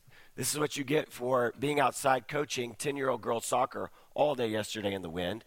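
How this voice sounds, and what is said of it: Hoarse, nearly lost voice. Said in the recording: “Despite the sound of my voice... I've lost my voice.”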